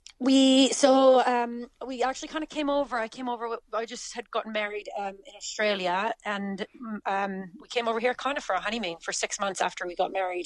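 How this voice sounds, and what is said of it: Canadian English accent, not Irish. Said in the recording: “Your accent is not a Clonakilty accent ... Canada originally”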